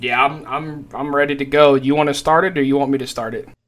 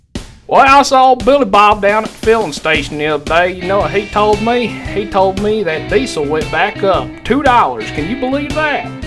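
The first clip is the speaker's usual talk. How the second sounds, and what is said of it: Put-on country accent. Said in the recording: “that good old country accent”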